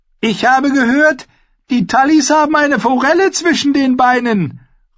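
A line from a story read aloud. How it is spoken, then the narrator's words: Bold call. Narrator (German): rief Alex Fry verwegen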